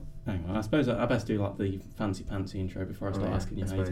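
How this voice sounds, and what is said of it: Usual voice. Nothing is said of it.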